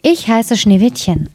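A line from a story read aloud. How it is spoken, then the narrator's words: Plain answer. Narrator (German): antwortete es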